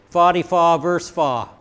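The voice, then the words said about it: Put-on Maine accent. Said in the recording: “as they say in Maine ... That's about all I can do with a Maine accent ... I can't do a Maine accent”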